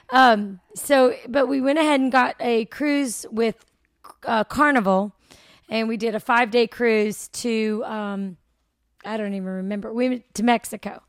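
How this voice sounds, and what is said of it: Hoarse, strained voice. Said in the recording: “I'm losing my voice because we were having so much fun this weekend. I've already been screaming and hollering.”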